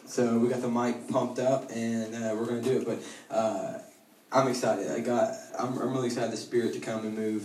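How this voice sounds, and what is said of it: Sick, rough-sounding voice. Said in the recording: “this isn't my like sexy radio voice ... I'm battling a little bit of an upper respiratory infection”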